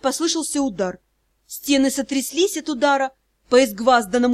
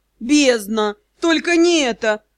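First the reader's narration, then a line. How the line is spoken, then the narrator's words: Groaning. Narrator (Russian): простонал Юрао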